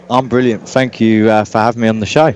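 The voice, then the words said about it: English accent. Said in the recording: “I love the accent... it sort of makes you realize how English you are”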